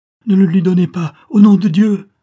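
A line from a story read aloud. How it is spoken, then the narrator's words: Mother exclaiming. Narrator (French): s'écria la mère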